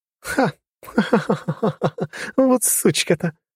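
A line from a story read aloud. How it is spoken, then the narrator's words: Laughing. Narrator (Russian): рассмеялась губернатор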